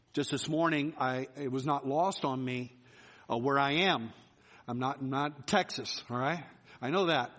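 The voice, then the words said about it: Regional accent, not Texan. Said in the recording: “My accent may sound a little weird.”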